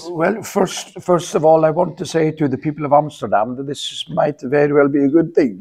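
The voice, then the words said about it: Put-on Dutch accent. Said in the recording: “I'll pull back in my Dutch accent.”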